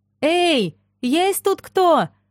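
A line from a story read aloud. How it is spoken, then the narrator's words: Shouted. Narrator (Russian): крикнула я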